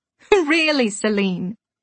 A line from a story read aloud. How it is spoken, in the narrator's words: Pippa laughed, her Yorkshire accent weaving through the words like fine chantilly lace